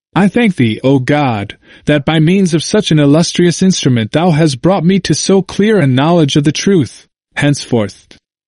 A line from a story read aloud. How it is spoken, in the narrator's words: the French monk exclaimed